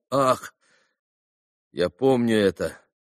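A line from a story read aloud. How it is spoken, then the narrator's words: Moaning. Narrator (Russian): Алеша простонал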